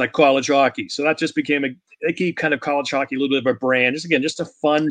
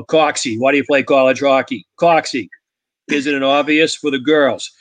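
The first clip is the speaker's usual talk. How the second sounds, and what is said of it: Put-on Boston accent. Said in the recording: “talking Boston accent”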